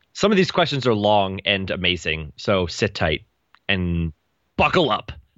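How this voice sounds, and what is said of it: Dramatic movie-trailer announcer voice. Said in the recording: “that was like movie phone voice”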